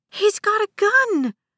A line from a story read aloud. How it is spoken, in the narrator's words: a passenger shrieked